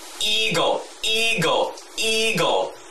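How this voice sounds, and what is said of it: Mockingbird imitating an eagle. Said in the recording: “That last one was a mockingbird imitating an eagle.”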